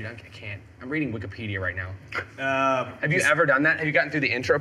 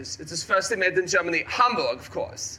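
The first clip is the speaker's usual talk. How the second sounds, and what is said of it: Put-on German accent. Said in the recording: “It's got the accent. ... that German thing”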